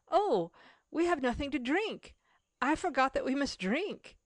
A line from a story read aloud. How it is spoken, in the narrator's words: Mary exclaimed